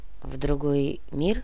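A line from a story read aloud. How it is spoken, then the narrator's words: Quiet question, policeman. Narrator (Russian): тихо спросил полицейский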